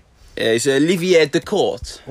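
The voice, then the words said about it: Put-on French accent. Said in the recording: “I did go with a French accent.”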